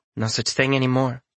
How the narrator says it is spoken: Lana says

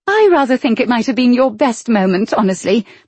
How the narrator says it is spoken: Prue said happily

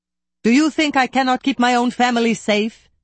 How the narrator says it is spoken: He bellowed

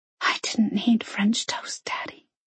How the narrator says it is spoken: she whispered

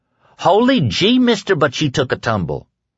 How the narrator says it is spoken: Tom Cullen exclaimed

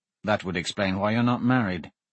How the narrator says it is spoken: he muttered

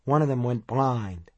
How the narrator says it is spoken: added in a queer, flat tone

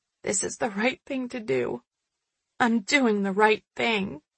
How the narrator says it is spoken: mumbling

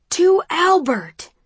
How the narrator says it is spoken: shouts the crowd

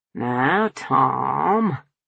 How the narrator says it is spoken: he drawled, smoothly stretching out his name

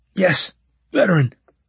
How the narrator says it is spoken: he gasped

